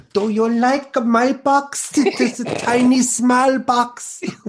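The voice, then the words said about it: Attempted Icelandic accent, poorly done. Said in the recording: “That's one accent I can't do. I can't do the Icelandic.”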